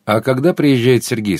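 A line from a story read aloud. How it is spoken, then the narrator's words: Calm question. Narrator (Russian): спокойно спросила Даша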